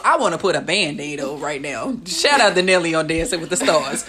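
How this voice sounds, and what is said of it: Exaggerated St. Louis accent. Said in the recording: “I'm really putting the extra STL on my accent today.”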